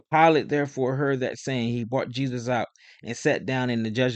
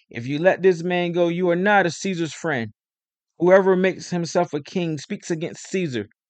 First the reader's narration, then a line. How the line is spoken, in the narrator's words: the Jews cried out, saying